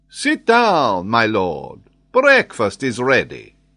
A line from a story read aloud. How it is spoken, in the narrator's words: saying gaily and in good English